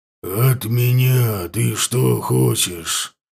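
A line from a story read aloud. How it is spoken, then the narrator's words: Growling. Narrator (Russian): спросил он рычащим голосом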